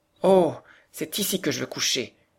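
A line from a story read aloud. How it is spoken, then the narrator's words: Exclaiming. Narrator (French): s'écria Heidi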